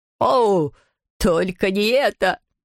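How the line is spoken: Groaning. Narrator (Russian): простонал таксидермист

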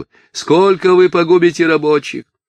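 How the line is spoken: Shouting over crowd. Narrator (Russian): он кричал через голову

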